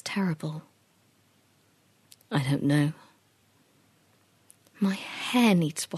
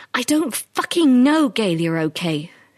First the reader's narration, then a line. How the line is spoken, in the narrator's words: She shouted, her patience suddenly broken